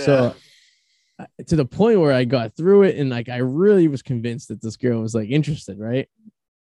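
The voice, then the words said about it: Boston accent. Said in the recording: “my Bostonian charm and my accent”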